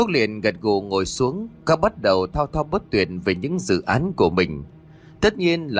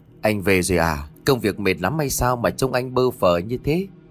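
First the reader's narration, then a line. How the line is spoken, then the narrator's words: Gentle smiling voice. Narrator (Vietnamese): cô mỉm cười đầy hiền từ nhẹ nhàng nói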